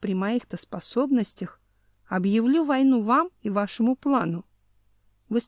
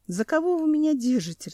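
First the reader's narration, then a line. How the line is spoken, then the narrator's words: Laughing. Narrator (Russian): рассмеялся Семен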